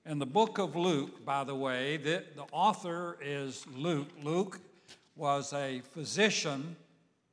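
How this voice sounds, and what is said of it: Slightly raspy voice. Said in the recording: “my voice is a little raspy today”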